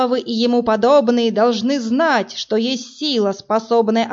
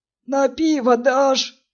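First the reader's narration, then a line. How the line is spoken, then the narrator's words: Hoarse, vagrant. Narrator (Russian): сипло поинтересовался один из бомжей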